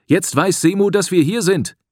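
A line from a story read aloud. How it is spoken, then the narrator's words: Call. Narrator (German): rief Patar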